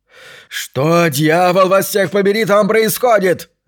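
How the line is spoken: Yelling. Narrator (Russian): заорал Брисбен

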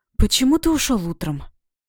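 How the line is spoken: Breathless timid question. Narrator (Russian): Выдохнула я, сама удивляясь, что нашла в себе смелость спросить

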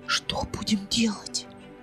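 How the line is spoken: Telepathic whisper. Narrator (Russian): послала мысленный шепот Билана

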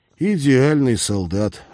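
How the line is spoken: Sighing. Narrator (Russian): вздохнул Олег

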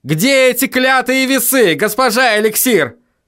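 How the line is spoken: Desperate yell. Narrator (Russian): В отчаянии заорал Вильям

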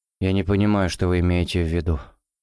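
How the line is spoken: Muttered. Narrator (Russian): пробормотал Кусков

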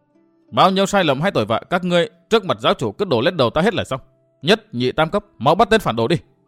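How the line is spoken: Loud embarrassed hurried shout. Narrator (Vietnamese): Vi Tiểu Nữ đỏ bừng cả mặt vội quát lớn để che lấp

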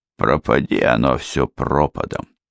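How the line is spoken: Driver barely audibly muttering. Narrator (Russian): Едва слышно пробормотал водитель

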